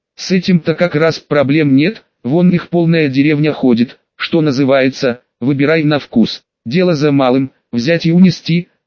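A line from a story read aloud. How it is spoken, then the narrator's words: Wry snort. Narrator (Russian): хмыкнул Андрей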